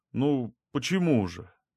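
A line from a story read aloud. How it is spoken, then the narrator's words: Uncertain. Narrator (Russian): Неуверенно произнес я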